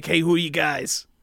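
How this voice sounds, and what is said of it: Imitates another person's voice. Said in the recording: “That's my Mark Maron impression”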